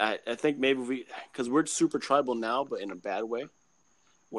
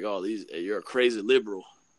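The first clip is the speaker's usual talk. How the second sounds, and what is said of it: Put-on Southern US accent. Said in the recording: “I don't know why I did a Southern accent.”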